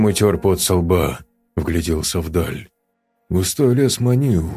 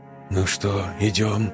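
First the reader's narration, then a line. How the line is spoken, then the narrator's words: Quiet question. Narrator (Russian): тихо спросил Юрка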